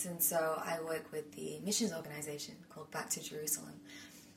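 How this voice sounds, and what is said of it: British accent. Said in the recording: “has an accent ... I'm from the UK”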